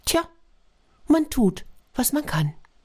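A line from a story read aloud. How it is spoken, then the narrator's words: Small sparrow, very calm. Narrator (German): Der kleine Spatz antwortete ganz ruhig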